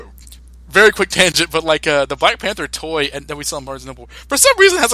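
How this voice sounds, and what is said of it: Usual voice. Nothing is said of it.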